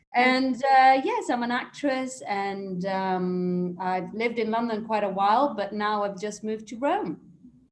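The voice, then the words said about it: Slight British accent. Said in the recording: “I'm half English, half Italian. That's why maybe you might hear a slight British accent there.”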